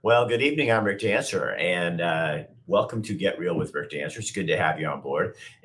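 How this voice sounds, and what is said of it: Hoarse, slightly rough voice. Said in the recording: “If it sounds like I'm a little hoarse, it's because I am. I've been yelling and screaming, had a little bit of a cold. So my voice is a little bit weird”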